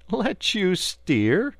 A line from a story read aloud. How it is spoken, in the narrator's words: replied the barge-woman, laughing